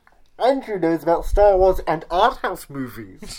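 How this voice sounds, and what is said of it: Darth Vader character voice impression. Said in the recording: “my Darth Vader impression”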